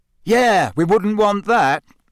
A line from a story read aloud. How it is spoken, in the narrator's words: Ron shouted angrily